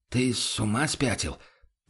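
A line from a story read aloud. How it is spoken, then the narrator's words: Barely audible. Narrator (Russian): проговорил помощник чуть слышно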